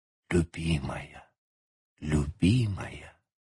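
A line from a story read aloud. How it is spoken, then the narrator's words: Dazed repeated whisper. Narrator (Russian): близкий к беспамятству, повторяя шепотом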